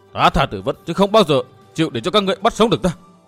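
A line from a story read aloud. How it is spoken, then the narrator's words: Hiss. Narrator (Vietnamese): Hắn rít lên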